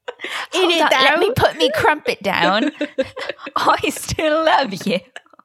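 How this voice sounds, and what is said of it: Put-on Cockney accent. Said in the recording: “the way I would go sicko mode in a Cockney accent.”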